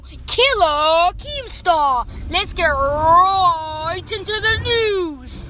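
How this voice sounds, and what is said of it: Imitates another person's voice. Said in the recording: “that's my best impression”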